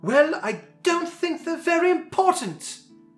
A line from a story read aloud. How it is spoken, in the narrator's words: snapped Milo